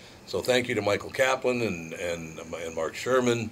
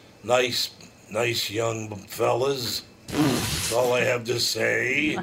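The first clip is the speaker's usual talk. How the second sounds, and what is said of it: Weird put-on accent. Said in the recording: “your weird accent”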